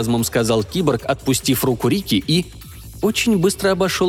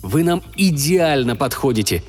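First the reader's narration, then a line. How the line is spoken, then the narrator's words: Joyful cyborg voice. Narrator (Russian): радостно сообщил киборг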